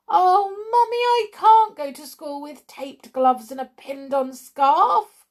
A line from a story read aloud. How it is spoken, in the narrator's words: wailed Pam